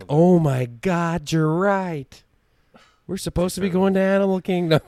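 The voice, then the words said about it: Imitated New Jersey-area accent. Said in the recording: “She was from New Jersey? ... She did have an accent, yes, from that area. So that's why I said it that way.”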